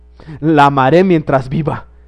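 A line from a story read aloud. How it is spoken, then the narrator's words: Exclaiming. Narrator (Spanish): exclamó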